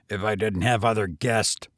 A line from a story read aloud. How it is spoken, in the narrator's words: growled the hotel keeper